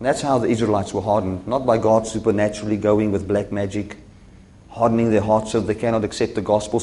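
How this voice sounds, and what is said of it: Speaks with a noticeable accent. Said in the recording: “Or is it my accent? ... Your accent's too bad.”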